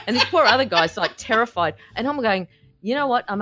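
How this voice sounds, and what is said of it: Usual voice. Nothing is said of it.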